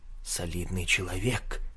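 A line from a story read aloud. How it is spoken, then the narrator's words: Whisper behind hand. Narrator (Russian): шепотом сказал клерк, приложив руку ко рту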